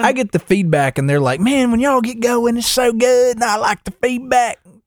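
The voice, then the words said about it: Put-on goofy country accent. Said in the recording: “I'm just doing a country person. ... It's not even country. Just a weird ... with that accent. ... That's just a me being dumb accent.”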